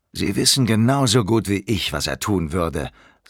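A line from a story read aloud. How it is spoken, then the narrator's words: Plain. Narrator (German): sagte Stainsforth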